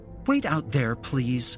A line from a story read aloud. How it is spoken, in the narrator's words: she snapped